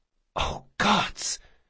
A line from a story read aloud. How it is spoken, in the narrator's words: she whispered